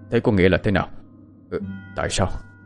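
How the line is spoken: Stunned muttering. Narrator (Vietnamese): Quan ông sững sờ rồi lẩm bẩm

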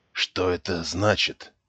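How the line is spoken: Old man whispering. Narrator (Russian): шепотом спросил старик

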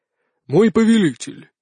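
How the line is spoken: Solemn. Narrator (Russian): торжественно начал он

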